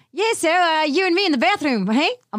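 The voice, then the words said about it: Ridiculous put-on accent. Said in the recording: “this ridiculous accent”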